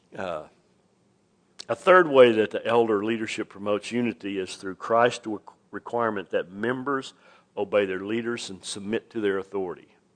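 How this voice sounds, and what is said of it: Voice lower than usual, strained. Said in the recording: “I got a little excited at both the football games, so my voice is, I'm an octave down this morning.”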